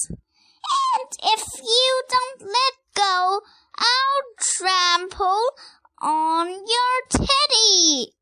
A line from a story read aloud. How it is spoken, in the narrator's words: shrieked Rosie